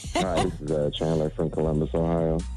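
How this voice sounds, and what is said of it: Whispering caller. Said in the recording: “why are you whispering this morning? You don't be usually calling up here whispering.”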